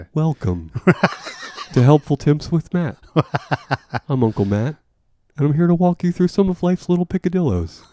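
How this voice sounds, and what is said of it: Self-help radio host voice. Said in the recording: “doing an impression of someone there? ... That's just a guy. ... like a self-help NPR guy.”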